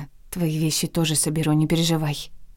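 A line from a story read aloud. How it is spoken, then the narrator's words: Sly whisper. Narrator (Russian): прошептала она и хитро подмигнула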